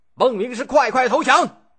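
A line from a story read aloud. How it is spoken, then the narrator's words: Loud shout. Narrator (Chinese): 大声叫喊着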